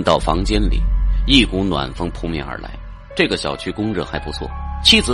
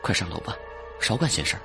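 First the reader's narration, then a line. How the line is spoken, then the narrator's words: Low quiet voice. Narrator (Chinese): 低声说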